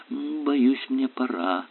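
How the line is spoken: Mumbling. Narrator (Russian): пробормотала мисс Диверси

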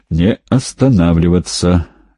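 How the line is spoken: Hoarse wheeze. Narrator (Russian): прохрипел он

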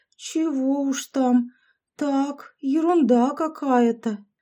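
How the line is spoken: Sickly drawl. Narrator (Russian): больным голосом протянула Яшка

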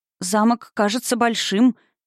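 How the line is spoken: Uncertain. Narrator (Russian): неуверенно произнесла мадам Райт

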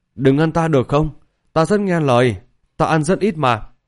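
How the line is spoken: Frightened, quiet pleading. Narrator (Vietnamese): tiểu xà nữ mang đầy vẻ sợ hãi, nhỏ giọng cầu xin

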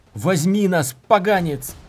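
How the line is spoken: Yelling. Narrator (Russian): заорал он

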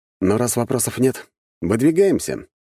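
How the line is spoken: Cheerful. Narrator (Russian): весело подмигнул я

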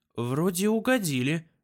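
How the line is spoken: Relieved sigh. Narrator (Russian): с облегчением вздохнул бог любви

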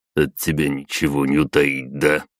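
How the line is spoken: Grumbled. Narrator (Russian): проворчал он

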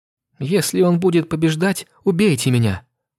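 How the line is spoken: Sobbing. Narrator (Russian): всхлипнула Эстри

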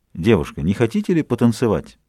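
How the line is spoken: Polite, refined tone. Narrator (Russian): Вежливо спросил, очень светским тоном

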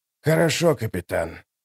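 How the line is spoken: Old man whispering. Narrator (Russian): прошептал старик

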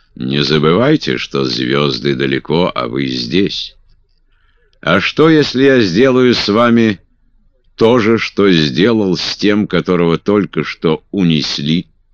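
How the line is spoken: Loud forced laughter. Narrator (Russian): Я громко рассмеялся, хотя мне было вовсе не до смеха

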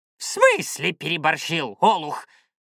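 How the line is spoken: Shaman barks. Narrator (Russian): гаркнул шаман

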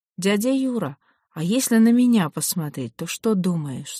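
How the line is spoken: Plain. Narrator (Russian): спросила я

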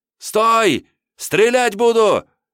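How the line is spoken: Frantic yelling. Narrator (Russian): ошалело заорал Журавлев

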